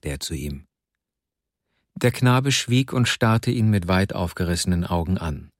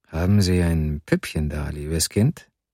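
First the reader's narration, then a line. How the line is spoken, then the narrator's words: Plain. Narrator (German): fragte er sie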